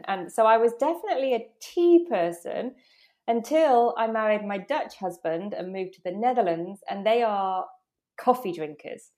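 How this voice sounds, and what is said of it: British accent. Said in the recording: “I'm British, as you might be able to tell from my accent.”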